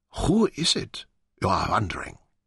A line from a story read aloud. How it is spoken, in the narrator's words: whispered